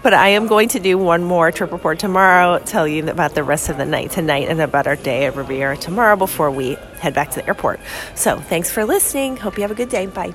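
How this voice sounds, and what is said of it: Hoarse, fading voice. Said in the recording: “I'm losing my voice, as maybe you can tell.”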